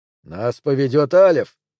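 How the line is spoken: Growl. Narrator (Russian): прорычал

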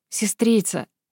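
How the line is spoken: Gentle but firm. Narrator (Russian): Гвинейн старалась говорить ласково, но твердо

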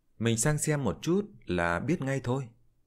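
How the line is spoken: Plain. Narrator (Vietnamese): Liễu Tuyết nói

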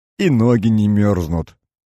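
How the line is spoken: Old man's small laugh. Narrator (Russian): мелко засмеялся дед Егор

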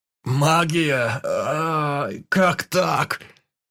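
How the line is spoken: Screaming in pain. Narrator (Russian): завопил от боли

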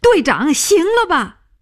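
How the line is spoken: Shouting. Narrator (Chinese): 他叫起来

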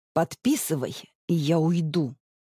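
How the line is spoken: Gritted-teeth mutter. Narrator (Russian): цедит сквозь зубы

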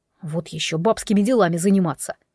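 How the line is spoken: Snorting strongman. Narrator (Russian): фыркнул богатырь

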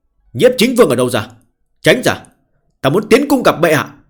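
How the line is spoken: Furious shout. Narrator (Vietnamese): giận tím mặt quát lên

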